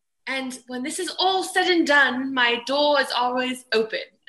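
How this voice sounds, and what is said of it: Put-on British accent. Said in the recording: “I'll say this in my British accent.”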